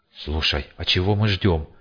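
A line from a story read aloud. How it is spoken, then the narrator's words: Quiet question. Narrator (Russian): тихо спросил фельдшер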